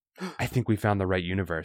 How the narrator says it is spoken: she whispers

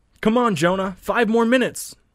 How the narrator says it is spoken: blonde-haired boy shouts

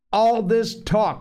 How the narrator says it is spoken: shouted Ralph

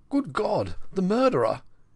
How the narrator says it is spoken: he choked

